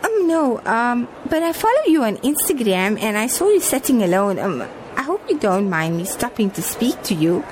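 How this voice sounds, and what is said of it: South African Johannesburg accent. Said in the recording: “it's nice to see a fellow South African. You sound like you're from Johannesburg.”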